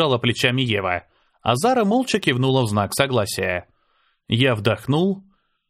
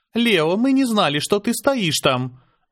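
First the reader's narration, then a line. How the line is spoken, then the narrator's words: Hesitant. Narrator (Russian): неуверенно начала Аня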